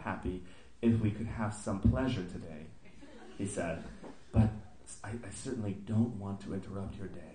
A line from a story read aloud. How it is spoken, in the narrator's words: he whispered